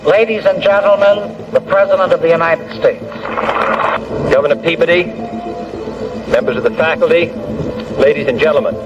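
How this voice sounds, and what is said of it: Local regional accent of this city. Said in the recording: “a city where my accent is considered normal ... where they pronounce the words the way they are spelled”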